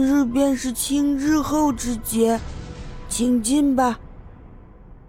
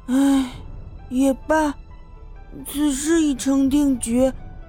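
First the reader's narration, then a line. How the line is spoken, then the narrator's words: Child sighing. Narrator (Chinese): 男童 叹了一口气，说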